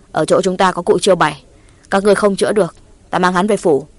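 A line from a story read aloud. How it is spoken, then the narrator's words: Angry but restrained. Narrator (Vietnamese): Trừ Cao Sơn dường như càng tức giận hơn, nhưng mà đối với cụ Tà Ao, gã không hẳn học như đối với Nguyễn Trác, chỉ nói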